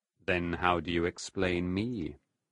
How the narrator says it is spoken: Mephistopheles asked softly

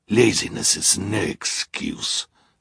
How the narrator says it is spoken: Olaf growled

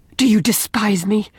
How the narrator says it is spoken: demanded Leslie in a fierce, low tone

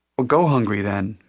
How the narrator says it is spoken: Matty told him, laughing

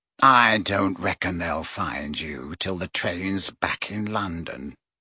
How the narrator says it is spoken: he said quietly

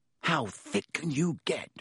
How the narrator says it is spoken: Ron whispered ecstatically

